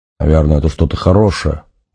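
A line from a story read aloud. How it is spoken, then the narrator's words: Grumbling. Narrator (Russian): буркнул Нанос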